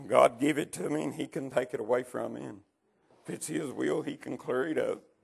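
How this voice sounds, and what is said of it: Ragged, hoarse voice. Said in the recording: “My voice is a little ragged this morning”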